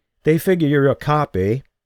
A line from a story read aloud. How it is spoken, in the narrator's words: Nadia laughed